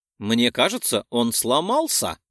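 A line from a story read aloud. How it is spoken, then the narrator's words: Joyful squeal over phone. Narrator (Russian): Радостно верещит мне в трубку кузен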